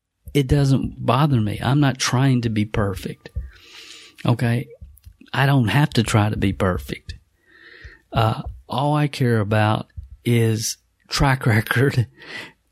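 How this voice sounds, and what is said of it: Southern American accent. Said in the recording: “You have a southern accent.”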